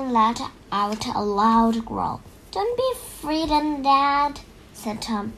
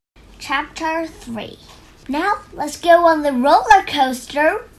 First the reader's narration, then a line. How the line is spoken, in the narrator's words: Robbie shouted